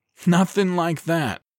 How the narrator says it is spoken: David replied, chuckling

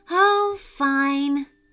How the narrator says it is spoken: said Maddie sadly

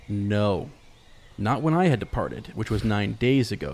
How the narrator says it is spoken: said Glorfindel

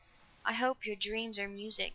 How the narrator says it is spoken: she said softly

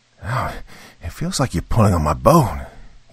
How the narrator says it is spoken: he said through gritted teeth

